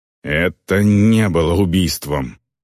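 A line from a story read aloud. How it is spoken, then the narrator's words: Growling. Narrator (Russian): прорычал Варг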